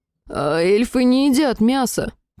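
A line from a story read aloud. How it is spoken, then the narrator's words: Groaning, beardless man. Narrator (Russian): Простонал какой-то безбородый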